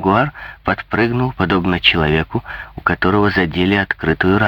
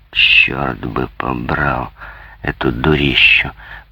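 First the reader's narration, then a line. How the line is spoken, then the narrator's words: Muttered through teeth. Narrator (Russian): пробормотал он сквозь зубы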